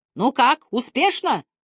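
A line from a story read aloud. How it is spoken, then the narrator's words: Shouted into ear. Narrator (Russian): прокричал капитан мне на ухо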